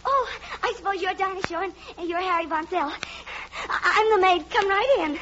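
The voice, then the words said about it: Breathless, out-of-breath speech. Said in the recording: “You're terribly out of breath.”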